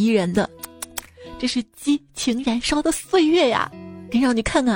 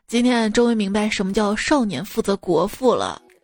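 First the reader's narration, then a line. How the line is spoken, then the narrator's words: Sighing exclamation. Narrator (Chinese): 我爸感叹道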